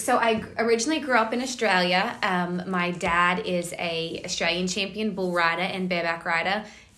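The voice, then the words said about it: Mixed American and Australian accent. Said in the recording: “the accent's kind of confused ... it's half American, half Australian. It doesn't know where it's from.”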